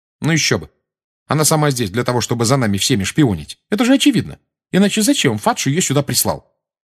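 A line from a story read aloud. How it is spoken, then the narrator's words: Sharp tone. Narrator (Russian): резким тоном сказала Гермиона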